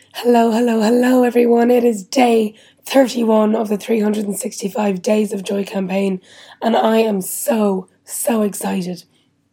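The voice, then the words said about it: Whispering, voice mostly gone. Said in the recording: “you can probably tell my voice is still pretty much gone ... my whisper is pretty much perfect, even though my normal voice isn't”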